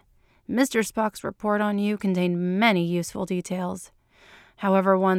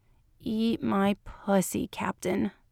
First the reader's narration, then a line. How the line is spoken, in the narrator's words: she moaned